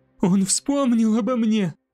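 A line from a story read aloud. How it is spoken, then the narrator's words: Moaning. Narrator (Russian): простонала Десселин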